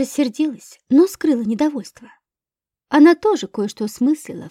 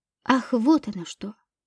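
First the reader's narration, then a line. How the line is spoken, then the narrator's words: Muttering. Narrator (Russian): пробормотала Подольская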